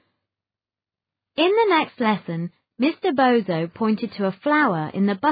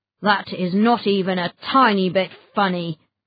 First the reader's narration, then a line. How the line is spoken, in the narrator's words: grumbled Mr